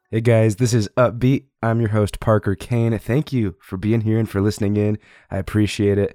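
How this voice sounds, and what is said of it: Sick, congested, strained voice. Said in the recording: “I am super sick right now, if you can tell from my voice ... it's actually kind of difficult for me to speak ... my sick voice ... the sicky sound of my voice”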